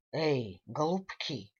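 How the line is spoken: Sharp rebuke. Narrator (Russian): одернул нас Фабрицио

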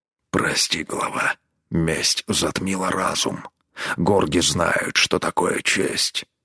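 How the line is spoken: Hoarse rasp. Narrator (Russian): прохрипел он

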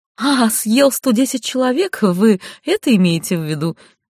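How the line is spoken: Lady, laughing. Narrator (Russian): Дама рассмеялась

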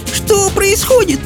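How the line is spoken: Shrieked. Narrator (Russian): взвизгнула Софи

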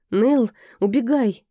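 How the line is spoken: Hoarse wheeze. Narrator (Russian): просипел Гайлс

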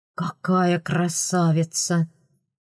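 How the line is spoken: Cautious sigh, awed. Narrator (Russian): Осторожно вздохнув, выдал, наконец, принц Родерик

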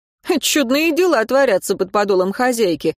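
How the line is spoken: Lord laughing. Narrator (Russian): рассмеялся один из лордов

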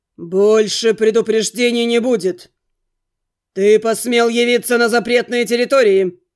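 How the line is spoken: Menacing bark. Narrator (Russian): Грозно рявкнул в ответ хранитель

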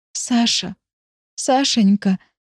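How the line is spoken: Hoarse, sobbing. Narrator (Russian): хрипло повторяю, позорно разрыдавшись

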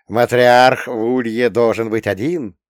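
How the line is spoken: Chuckle. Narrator (Russian): хохотнул

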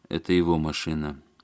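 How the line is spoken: Gloomy. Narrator (Russian): мрачно сказал Барышев

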